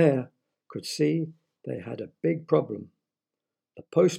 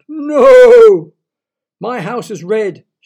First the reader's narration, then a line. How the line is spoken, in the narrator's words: shouted Mr